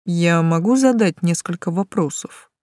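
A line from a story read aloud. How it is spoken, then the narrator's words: Sudden calm question. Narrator (Russian): вдруг спокойно уточнил Тан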